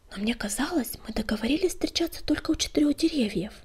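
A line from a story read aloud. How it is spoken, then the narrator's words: Muttered. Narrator (Russian): пробормотала кошечка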